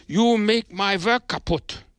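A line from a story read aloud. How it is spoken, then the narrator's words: Angry shout. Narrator (German): rief er, und seine blauen Augen sprühten böse Funken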